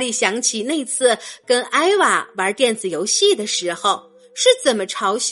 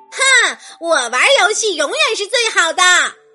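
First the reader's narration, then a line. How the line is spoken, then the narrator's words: Loud shout. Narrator (Chinese): 他大声喊道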